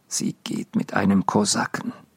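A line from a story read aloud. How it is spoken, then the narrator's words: Quiet after pause. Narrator (German): sagte dann leise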